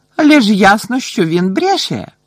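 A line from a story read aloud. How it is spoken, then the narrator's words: Exclaiming. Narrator (Ukrainian): вигукнула мадам Максім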